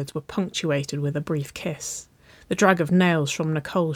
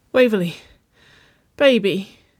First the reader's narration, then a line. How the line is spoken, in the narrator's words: she whimpered, her throat far too tight to find the word she needed